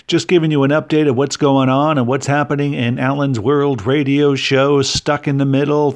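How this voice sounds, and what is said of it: Radio announcer style voice. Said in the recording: “I don't know why I'm talking like a radio”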